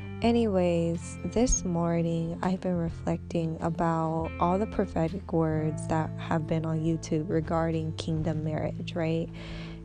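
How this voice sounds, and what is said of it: Groggy just-woken voice, slightly impeded speech. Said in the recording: “I'm honestly just waking up, so excuse my voice... I have my retainer in, so I probably am not speaking perfect English”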